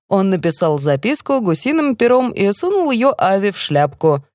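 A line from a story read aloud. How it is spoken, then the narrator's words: Giggling. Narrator (Russian): хихикает Сарика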